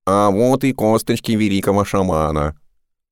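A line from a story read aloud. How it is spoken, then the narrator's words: Nasal twang. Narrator (Russian): прогнусавил он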